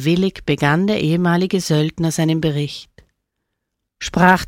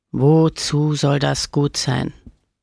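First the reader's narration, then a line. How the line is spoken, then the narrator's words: Growling. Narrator (German): knurrte Camillo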